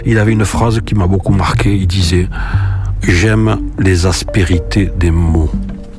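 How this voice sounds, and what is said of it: Toulouse accent. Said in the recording (French): “j'ai un bon accent de Toulouse que j'ai tenu absolument à assumer et à garder. Oui, oui, j'ai l'accent de Toulouse.”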